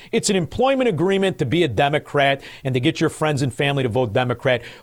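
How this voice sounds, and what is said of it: Chicago accent. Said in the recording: “said with a beautiful Chicago accent”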